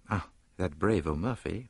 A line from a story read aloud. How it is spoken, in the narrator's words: murmured Poirot thoughtfully